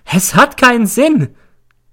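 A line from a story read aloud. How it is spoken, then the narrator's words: Shrieks. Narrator (German): kreischt sie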